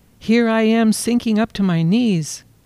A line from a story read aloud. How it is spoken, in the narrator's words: she cried